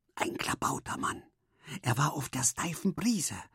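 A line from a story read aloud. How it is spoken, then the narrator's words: Whispered. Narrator (German): flüsterte Henry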